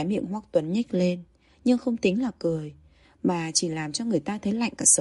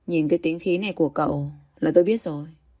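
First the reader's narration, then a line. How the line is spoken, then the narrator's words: Laughing. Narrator (Vietnamese): Hoắc Cảnh Ngôn bật cười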